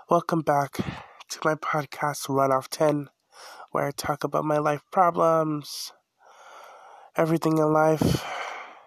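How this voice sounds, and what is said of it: Sick, weird-sounding voice. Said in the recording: “sorry I sound weird, I'm sick”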